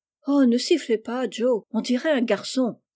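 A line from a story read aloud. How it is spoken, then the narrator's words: Exclaimed. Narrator (French): s'écria Amy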